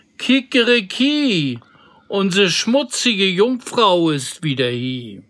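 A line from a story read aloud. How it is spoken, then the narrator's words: Rooster calling. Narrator (German): der Hahn auf dem Brunnen rief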